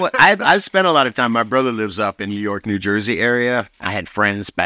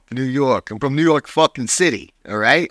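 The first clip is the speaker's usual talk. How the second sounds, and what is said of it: Put-on New York accent. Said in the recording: “Can everybody do their best New York accent?”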